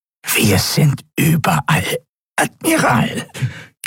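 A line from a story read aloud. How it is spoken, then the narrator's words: Strained nasal croak. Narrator (German): krächzte die gepresste, nasale Stimme des Draxyl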